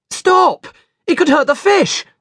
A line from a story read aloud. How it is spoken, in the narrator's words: shouted